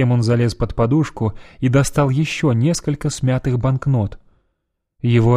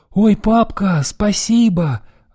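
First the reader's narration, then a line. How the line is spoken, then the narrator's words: Joyful exclamation. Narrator (Russian): радостно воскликнул он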